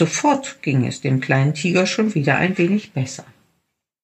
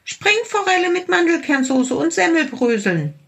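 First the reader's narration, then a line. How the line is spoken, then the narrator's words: Small tiger calling out. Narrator (German): rief der kleine Tiger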